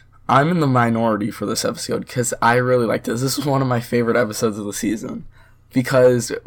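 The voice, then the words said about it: Rough, ill-sounding voice. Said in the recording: “apologize for my voice. I sound like I'm dying”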